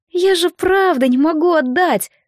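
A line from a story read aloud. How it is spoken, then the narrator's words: Almost plaintive. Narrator (Russian): добавила она почти жалобно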